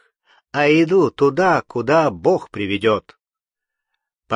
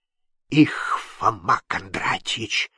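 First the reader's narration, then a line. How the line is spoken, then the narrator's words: Whispered. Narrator (Russian): шепнул дьяк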